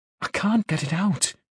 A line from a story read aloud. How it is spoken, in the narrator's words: she whispered